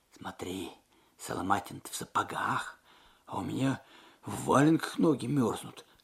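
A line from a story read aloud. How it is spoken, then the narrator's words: Whispered. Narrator (Russian): шепнул Алексей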